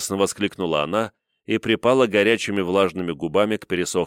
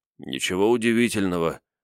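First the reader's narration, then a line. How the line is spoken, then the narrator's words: Hoarse reply. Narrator (Russian): ответил хриплым голосом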